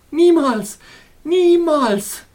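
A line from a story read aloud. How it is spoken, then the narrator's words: Called out. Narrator (German): rief sie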